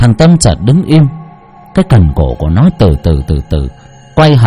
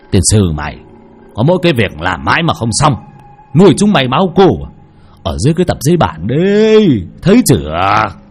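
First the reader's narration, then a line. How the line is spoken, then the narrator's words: Irritated old man's shout. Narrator (Vietnamese): Bực mình, lão quát lên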